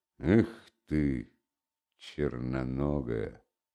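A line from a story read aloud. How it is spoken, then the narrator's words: Said through gritted teeth. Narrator (Russian): проговорив сквозь зубы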